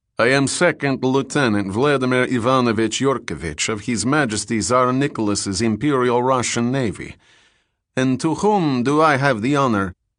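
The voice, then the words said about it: Heavy Russian accent. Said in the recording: “he said in a heavy Russian accent”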